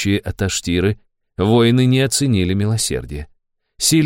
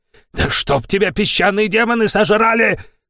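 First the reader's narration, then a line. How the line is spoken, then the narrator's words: Roaring. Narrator (Russian): проревел Самир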